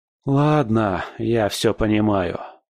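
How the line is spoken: Sighing. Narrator (Russian): вздохнул я

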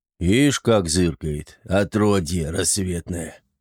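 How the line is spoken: Grumbled. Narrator (Russian): проворчал дубина

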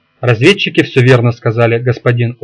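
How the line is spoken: Tired. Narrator (Russian): устало сказал Литас

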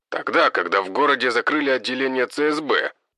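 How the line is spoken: Wry grunt. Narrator (Russian): хмыкнул он

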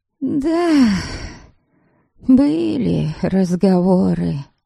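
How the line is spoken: Sigh. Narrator (Russian): Будениха вздохнула

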